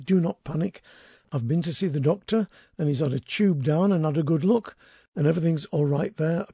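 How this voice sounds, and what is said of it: Rusty, strained voice. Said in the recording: “my voice is still rusty ... the vocal cords got strained a little bit over the winter because of all the coughing”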